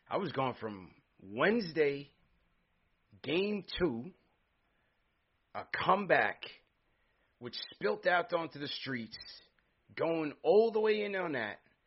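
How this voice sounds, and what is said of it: Worn-out, strained voice. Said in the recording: “I can't hang ... as you can tell by my voice”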